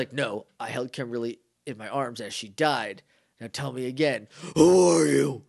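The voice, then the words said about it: Gravelly, Batman-like growl. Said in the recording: “his voice is a little gravelly ... That's Batman.”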